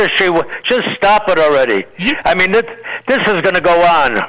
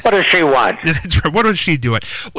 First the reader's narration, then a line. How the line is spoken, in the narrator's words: laugh and say